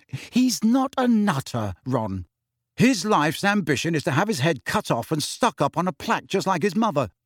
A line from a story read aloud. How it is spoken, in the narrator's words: said Ron irritably